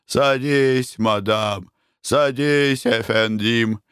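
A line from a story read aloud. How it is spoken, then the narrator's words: Inviting. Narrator (Russian): приглашал он супругов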